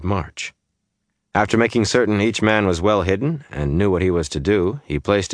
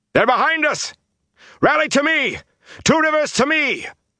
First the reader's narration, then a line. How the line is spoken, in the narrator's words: he shouted